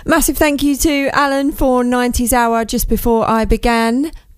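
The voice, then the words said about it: Croaky, strained voice. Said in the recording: “my voice is still a bit croaky from the weekend, from all the shouting at the football”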